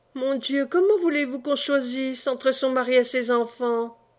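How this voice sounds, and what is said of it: Heartrending, anguished tone. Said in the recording (French): “Avec un accent déchirant.”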